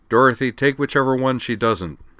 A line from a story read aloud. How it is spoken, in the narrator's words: Raising his voice slightly, said